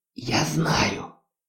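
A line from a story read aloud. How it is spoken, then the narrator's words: Whispered reply. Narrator (Russian): шептала в ответ Хона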